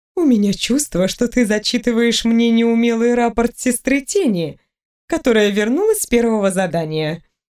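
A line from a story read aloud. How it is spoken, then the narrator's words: Laughing. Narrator (Russian): рассмеялась сестра Релин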